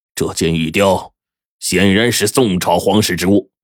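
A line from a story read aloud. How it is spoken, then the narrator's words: Angry. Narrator (Chinese): 金帝，顿时脸色一沉，怒道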